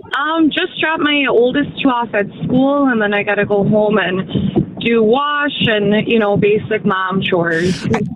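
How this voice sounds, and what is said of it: Wisconsin accent. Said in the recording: “I love the Wisconsin accent.”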